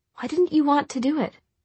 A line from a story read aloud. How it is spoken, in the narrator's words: Tessa asked a little hesitantly